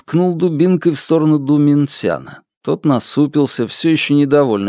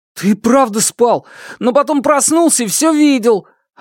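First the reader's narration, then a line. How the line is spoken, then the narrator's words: Stunned exclamation. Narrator (Russian): Ошеломленный ответом Ду воскликнул Хан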